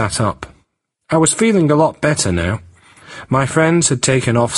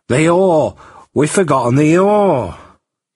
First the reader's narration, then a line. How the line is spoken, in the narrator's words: Jack suddenly started and exclaimed